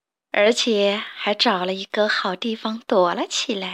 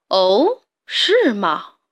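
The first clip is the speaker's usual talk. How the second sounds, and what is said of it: Big, loud voice. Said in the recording (Chinese): “一个很大的声音说”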